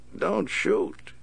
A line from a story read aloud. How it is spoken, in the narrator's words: he chuckled